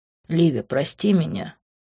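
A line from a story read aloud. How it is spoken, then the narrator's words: Quiet. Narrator (Russian): тихо сказал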